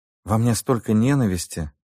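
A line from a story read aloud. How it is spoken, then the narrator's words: Breathed out. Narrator (Russian): выдохнула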